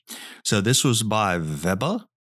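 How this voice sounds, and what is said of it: Put-on German accent. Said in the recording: “That's my best German accent. That's as good as I can get.”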